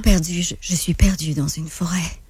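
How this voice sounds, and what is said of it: Deeper, breathier voice. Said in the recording (French): “c'est pas mal la même voix, mais ... je te dirais qu'elle est plus deep, il y a plus d'air dedans”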